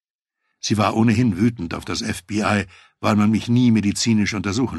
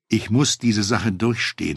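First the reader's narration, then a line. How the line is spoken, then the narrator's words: Plain. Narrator (German): sagte ich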